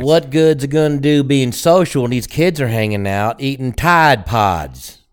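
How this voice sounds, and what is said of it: Southern accent. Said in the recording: “you threw the Southern accent in there”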